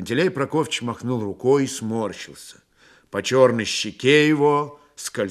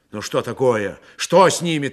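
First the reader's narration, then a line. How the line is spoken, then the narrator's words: Anxious sharp question. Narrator (Russian): тревожно и резко спросил Григорий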